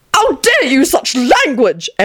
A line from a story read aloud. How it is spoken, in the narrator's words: Antonin screeched furiously